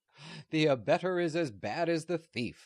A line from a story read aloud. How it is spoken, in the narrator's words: laughed Newt